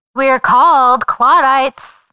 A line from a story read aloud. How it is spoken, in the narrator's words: she chirped